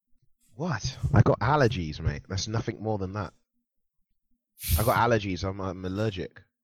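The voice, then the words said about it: Stuffy, congested voice. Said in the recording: “You sound a little stuffy.”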